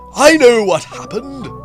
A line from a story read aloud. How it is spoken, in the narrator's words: I shouted